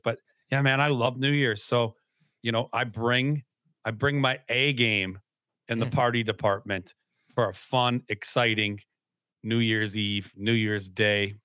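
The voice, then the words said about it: Hoarse voice. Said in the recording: “That's also why I have a hoarse voice today, man.”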